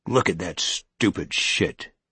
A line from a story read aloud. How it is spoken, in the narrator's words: Norton growled